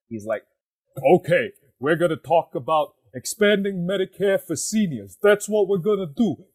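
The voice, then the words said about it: Imitates another person's voice. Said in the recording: “great impression, ... a pretty yeah, good Bernie”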